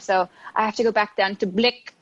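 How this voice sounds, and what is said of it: Put-on Filipino accent. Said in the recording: “I love saying that in the Filipino accent.”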